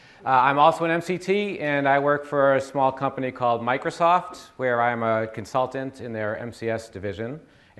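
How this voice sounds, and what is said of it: Boston accent. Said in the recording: “I'm from the Boston area. Some of you will recognize my accent.”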